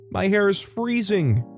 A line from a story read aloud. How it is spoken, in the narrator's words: one of them screaming